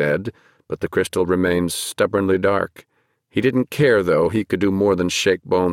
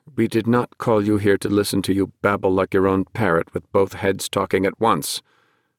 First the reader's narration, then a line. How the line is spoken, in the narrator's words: Paina said coldly